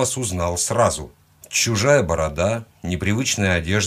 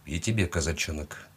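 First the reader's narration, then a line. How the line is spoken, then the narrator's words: Quiet reply. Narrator (Russian): негромко ответил он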